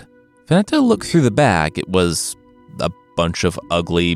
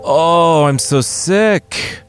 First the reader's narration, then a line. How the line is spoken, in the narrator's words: the king bellowed